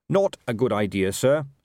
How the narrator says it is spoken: said Carrot firmly

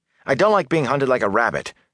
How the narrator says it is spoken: Matt snapped

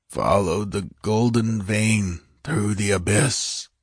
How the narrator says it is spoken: muttered Kemsa

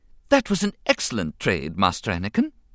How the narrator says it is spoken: C-3PO advised cheerfully

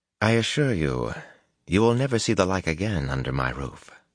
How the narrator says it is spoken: the innkeeper replied smoothly

